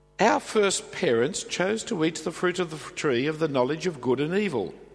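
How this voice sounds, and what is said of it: Australian English accent. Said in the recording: “speaking English with an Australian accent”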